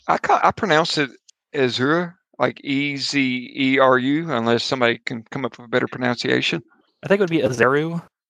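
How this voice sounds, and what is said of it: Southern American accent. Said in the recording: “See the southern accent, guys. Like I can mispronounce everything”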